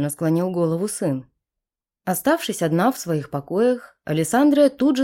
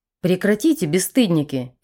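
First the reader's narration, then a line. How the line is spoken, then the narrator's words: Barked. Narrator (Russian): рявкнула императрица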